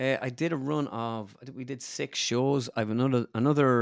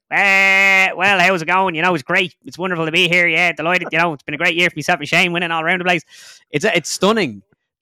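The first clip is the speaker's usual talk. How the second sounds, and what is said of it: Imitates another person's voice. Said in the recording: “you have Padraig and it's like ... You're doing a lot of accents, a lot of impressions”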